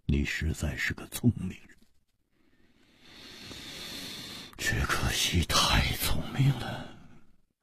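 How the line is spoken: Long sigh, leisurely. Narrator (Chinese): 无花长长地叹了一口气，悠然说

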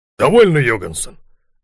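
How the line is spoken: Sharp. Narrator (Russian): резко сказал волк Ларсен

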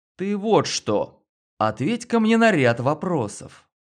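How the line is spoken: Businesslike confident. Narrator (Russian): я произнес деловито уверенным тоном

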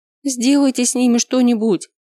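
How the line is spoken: Sobbing. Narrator (Russian): прорыдала

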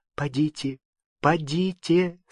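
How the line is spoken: Quiet voice. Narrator (Russian): сказала она, наконец, тихим голосом

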